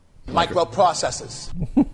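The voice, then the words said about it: Put-on Boston Southie accent. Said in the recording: “That's not a flattering accent to say any technological word in. ... everyone sounds like a Southie guy”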